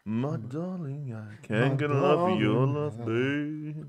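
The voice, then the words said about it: Deep low crooning voice. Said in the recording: “how are you going to do your low voice? ... you know, Barry White”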